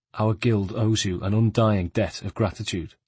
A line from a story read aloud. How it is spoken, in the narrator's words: his tone became solemn